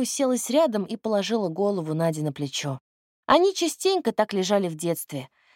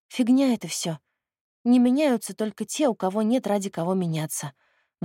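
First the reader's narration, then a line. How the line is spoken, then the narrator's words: Sighing. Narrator (Russian): вздохнула Юля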